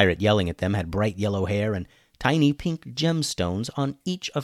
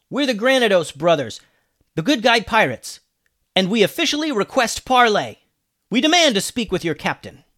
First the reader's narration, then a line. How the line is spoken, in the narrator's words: Alex yelled back